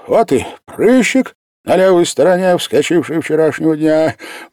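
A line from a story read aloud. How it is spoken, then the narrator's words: Nearly laughing with joy. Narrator (Russian): Майор чуть не засмеялся от радости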